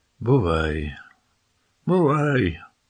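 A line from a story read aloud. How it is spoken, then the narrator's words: Sighing. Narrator (Ukrainian): зітхнула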